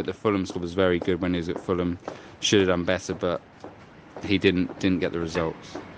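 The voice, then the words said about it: London English accent. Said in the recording (Dutch): “Dat mooie Londen accent”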